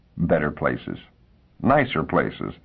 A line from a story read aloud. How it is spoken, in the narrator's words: she said sadly